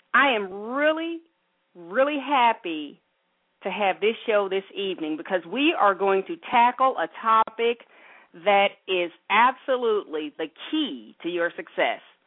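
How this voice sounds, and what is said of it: Breathless, fast excited speech. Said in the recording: “Oh, I've got to slow down here. ... I'm out of breath.”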